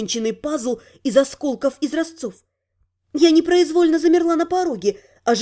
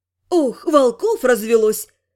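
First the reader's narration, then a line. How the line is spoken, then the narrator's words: Grumbled under breath. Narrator (Russian): проворчала я себе под нос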